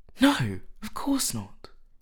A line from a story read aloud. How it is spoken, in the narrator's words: cried Dorian